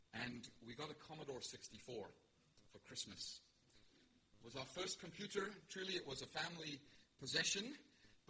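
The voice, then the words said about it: South African accent. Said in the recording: “we were living in Pietermaritzburg in South Africa, if you're wondering about my accent.”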